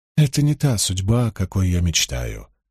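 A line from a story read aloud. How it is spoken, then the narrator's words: Calm remark. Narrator (Russian): спокойно заметил Таим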